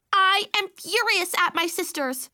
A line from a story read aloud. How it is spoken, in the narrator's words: Baby Sophie screamed